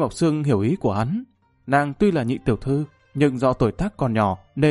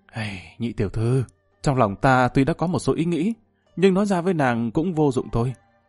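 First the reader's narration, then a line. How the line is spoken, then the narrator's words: Sighing. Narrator (Vietnamese): thở dài một cái nói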